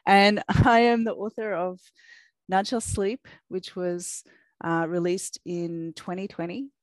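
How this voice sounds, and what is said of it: Australian accent. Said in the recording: “If you're wondering what that strange accent is, it's my Australian accent.”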